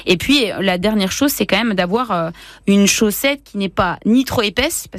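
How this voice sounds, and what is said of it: Franche-Comté regional French accent. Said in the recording (French): “avec le bon accent franc-comtois”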